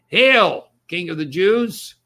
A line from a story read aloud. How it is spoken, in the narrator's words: mocked him, saying